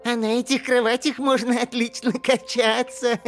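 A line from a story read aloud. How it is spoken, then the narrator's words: Laughing. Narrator (Russian): рассмеялся Мола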